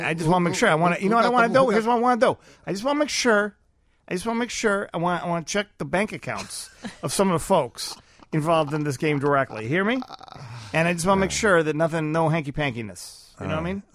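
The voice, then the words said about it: Put-on Chicago accent. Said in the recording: “Chicago accent.”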